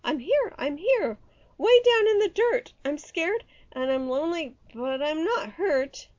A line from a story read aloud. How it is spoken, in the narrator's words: he shouted